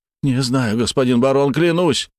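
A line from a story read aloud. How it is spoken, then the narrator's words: Frightened exclamation, peasant man. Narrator (Russian): воскликнул мужик, когда Марта провела лезвием вдоль его щеки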